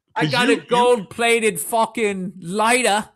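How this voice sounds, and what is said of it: Deliberately bad put-on accent. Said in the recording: “I know I'm doing a bad accent”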